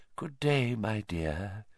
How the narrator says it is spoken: she said softly

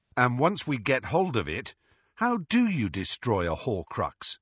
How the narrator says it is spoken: asked Ron

